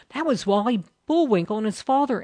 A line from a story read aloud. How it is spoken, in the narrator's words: interrupted Jerry excitedly